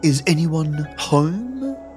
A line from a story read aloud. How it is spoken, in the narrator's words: mockingly, but quietly uttering